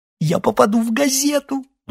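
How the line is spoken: Woman's ecstatic sob. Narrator (Russian): восторженно всхлипнула женщина

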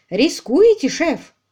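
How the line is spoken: Exclaimed. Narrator (Russian): воскликнул Тринг

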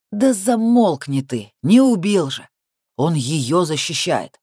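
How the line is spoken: Grim, angry. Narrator (Russian): Мрачно и зло отвечает Рябинин

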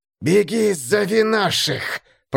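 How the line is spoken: Hissed urgently. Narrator (Russian): прошипел тот

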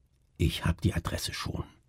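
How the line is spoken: Whispering. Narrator (German): flüsterte

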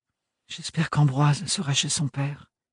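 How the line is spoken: Whisper. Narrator (French): chuchota-t-elle

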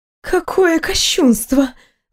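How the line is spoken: Breathed out. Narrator (Russian): выдохнула она

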